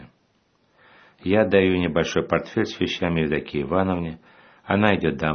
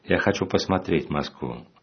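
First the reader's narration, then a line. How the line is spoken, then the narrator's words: Plain. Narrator (Russian): говорит отец Арсений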